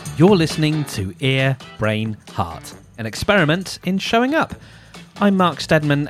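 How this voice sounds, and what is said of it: Smooth radio-style voice. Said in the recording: “You've got a very radio voice.”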